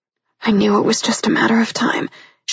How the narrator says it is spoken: she mumbled, more to herself than him

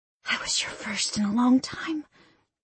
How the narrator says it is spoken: I whispered

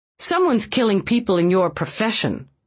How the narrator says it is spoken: she snapped back

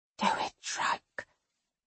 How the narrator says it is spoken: he whispers

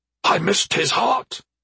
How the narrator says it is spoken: Kernich said in a raspy whisper

